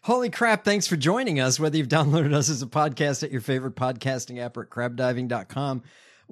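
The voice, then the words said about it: Hoarse, strained voice. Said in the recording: “my voice is really shot today. The allergies are bad today.”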